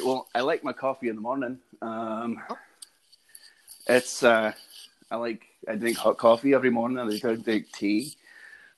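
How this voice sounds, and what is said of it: Put-on English accent. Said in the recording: “That's pretty good. ... I was going to do an English accent, but I do not want to follow that one up”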